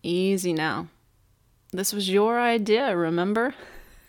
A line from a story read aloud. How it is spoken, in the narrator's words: He chuckled